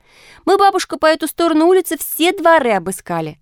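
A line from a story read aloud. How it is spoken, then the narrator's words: Several voices shouting. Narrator (Russian): закричали они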